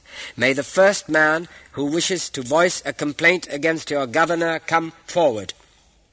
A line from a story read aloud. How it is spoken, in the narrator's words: announced Umar in a loud voice